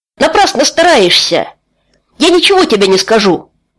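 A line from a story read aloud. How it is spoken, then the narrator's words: Shouted out. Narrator (Russian): выкрикнул Тай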